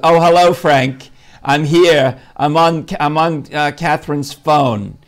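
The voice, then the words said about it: Older woman's New York accent. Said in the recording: “Her voice is amazing. ... Can you do a New York voice?”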